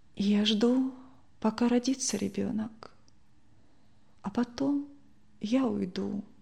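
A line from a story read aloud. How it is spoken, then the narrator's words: Quiet answer. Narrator (Russian): тихо ответила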